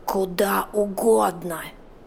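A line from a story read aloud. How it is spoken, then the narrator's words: Hoarse rasp. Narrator (Russian): прохрипела Мия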